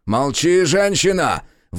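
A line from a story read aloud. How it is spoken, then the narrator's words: Sudden roar. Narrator (Russian): внезапно взревел Шавкат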